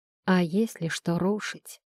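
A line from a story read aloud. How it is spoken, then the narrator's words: Quiet male voice. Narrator (Russian): тихо произнес он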